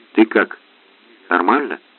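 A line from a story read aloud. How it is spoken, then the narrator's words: Whisper. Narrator (Russian): прошептал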